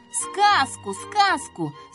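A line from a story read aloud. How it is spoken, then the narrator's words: Children shouting. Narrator (Russian): закричали дети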